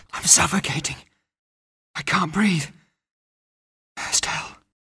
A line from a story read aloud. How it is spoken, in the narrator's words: whispered Matt on the living room floor